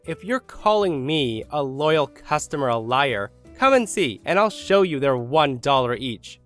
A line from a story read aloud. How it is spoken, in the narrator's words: She then yells